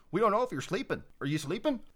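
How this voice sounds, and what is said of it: Put-on Canadian accent. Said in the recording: “It's a good Canadian accent.”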